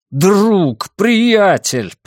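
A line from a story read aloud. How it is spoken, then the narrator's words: Shouted. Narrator (Russian): прокричал я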